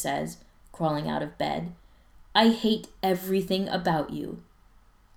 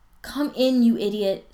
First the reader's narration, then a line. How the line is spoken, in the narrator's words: Spencer says, yawning